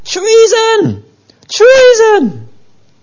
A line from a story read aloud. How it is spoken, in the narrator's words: Athaliah called out